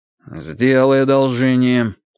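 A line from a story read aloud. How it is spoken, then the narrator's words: Gloomy tone. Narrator (Russian): мрачно сказал Андрей Андреевич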